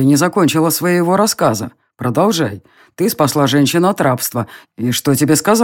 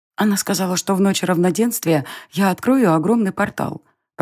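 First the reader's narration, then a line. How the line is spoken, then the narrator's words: Whispered. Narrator (Russian): прошептала Ая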